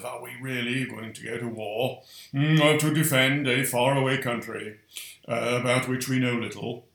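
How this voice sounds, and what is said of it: Imitates another person's voice. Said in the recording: “that was my Churchill accent”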